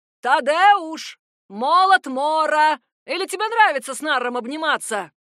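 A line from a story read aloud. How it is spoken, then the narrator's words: Yelling. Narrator (Russian): орал лорд Коул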